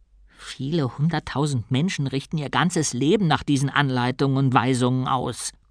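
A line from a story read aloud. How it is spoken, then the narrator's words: Growling. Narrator (German): knurrte ihn Bruta an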